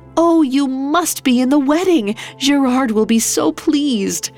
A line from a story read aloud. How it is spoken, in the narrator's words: Desiree exclaimed